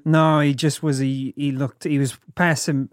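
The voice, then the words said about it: Wobbly put-on Australian accent, drifting Kiwi. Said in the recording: “My Australian accent's getting so much worse... I also go like Kiwi. I feel like I go more Kiwi with it.”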